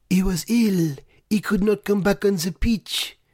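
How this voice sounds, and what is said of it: Imitates another person's voice. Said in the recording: “I can do my Claude Puel voice”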